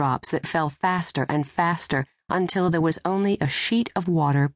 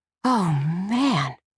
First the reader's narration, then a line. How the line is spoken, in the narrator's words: Molly gasped